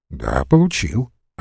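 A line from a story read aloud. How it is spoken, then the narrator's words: Calm reply. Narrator (Russian): отвечал спокойно Весленев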